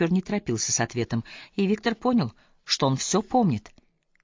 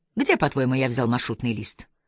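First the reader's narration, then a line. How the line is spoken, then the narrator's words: Calm. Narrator (Russian): спокойно произнес Виктор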